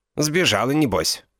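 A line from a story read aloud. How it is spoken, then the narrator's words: Snorting. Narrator (Russian): хмыкнул инспектор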